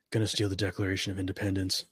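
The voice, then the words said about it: Nicolas Cage impression. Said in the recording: “good Nicolas Cage impression... I almost thought he was in the room for a second.”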